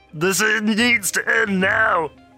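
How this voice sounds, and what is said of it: Weird character voice. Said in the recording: “Chaps has the weird voice.”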